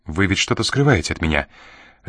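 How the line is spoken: Sharp question, young woman. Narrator (Russian): резко спросила девушка

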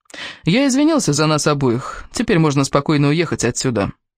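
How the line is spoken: Explaining. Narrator (Russian): пояснил Кевин

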